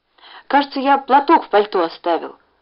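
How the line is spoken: Mumbled. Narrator (Russian): пробормотал Ленька

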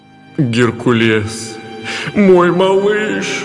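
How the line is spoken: Trembling, near sobbing. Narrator (Russian): Дрожащим голосом, чуть ли не рыдая, произнес Зевс

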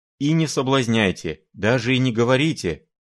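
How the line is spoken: Exclaiming. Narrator (Russian): Филипп Филиппович воскликнул

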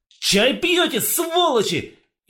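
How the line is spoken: Yelled. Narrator (Russian): заорал

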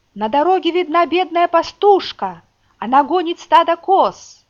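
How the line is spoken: Sentry shouting. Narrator (Russian): И вот часовой прокричал

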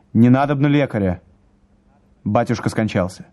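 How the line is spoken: Curt, clipped. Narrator (Russian): Владимир отрывисто сказал

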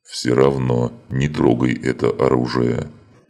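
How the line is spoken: Demon's booming drone. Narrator (Russian): прогудел демон

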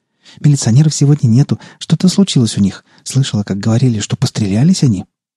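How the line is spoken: Nonstop chatter, girl. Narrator (Russian): Девушка, не переставая, тараторила

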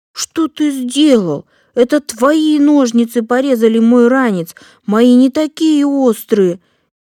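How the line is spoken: Frightened shout. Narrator (Russian): Испуганно закричал Эдик

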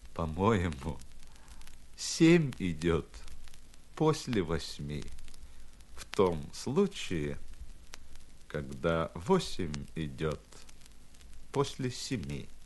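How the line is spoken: Sad, wry. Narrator (Russian): Кассирша грустно улыбнулась, вынула изо рта маленький молоточек и, слегка подвигав носом, сказала

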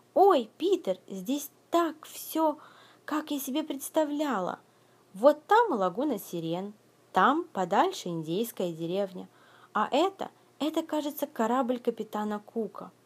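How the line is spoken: Excited exclamation. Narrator (Russian): Когда дети увидели Нескучию, Венди воскликнула

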